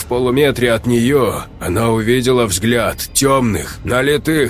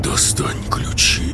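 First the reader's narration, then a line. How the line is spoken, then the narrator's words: Whisper. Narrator (Russian): прошептал голос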